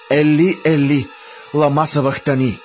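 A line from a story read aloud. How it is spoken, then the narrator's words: Loud cry. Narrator (Bulgarian): Исус извика със силен глас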